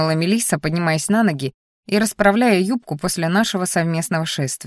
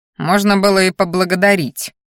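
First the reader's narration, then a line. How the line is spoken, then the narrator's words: Through gritted teeth. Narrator (Russian): процедил я сквозь зубы в ответ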